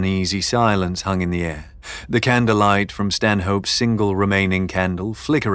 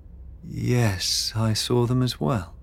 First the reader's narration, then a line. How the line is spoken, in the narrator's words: Beatrix murmured